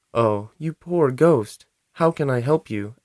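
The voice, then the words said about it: Sad, sorrowful voice. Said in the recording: “in a sad voice.”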